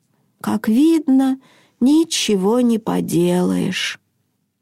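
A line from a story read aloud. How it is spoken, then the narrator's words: Sad sigh, mutter. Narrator (Russian): Хенрик огорченно вздохнул и пробормотал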